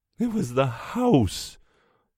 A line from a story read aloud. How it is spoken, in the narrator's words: the mother is moaning